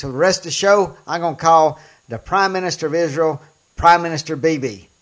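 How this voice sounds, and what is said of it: Southern American accent. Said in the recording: “I got a southern accent ... this old country boy”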